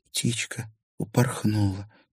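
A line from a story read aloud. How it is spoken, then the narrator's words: Quiet. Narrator (Russian): тихо произнесла Дагни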